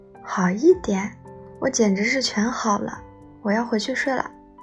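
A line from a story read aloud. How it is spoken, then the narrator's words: Laughing. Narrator (Chinese): 他笑着说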